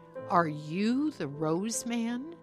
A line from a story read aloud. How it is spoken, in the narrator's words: she asked